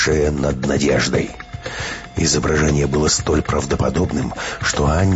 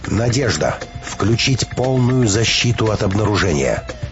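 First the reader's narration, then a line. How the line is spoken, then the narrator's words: Stern, composed command. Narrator (Russian): Переборов страх, Петровская взяла себя в руки и строго приказала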